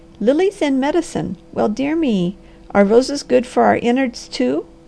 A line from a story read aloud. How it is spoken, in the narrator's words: the Harvester did laugh